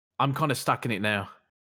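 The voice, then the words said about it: Put-on British accent. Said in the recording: “You're still doing the British accent.”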